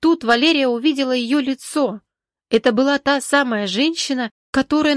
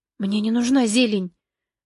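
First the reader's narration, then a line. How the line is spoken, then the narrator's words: Fearful whisper. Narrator (Russian): прошептала Валерия, в страхе обернуться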